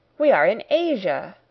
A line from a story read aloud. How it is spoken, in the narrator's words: I cried